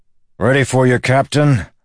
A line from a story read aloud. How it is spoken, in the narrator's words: the lawman shouted